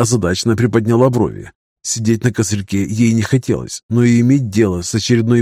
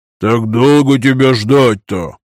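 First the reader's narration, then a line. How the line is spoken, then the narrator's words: Deep bass voice. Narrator (Russian): пробасил бородач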